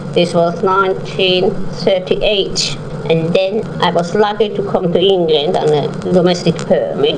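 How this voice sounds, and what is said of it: Broad Viennese accent, elderly woman. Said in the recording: “my grandma's broad Viennese accent”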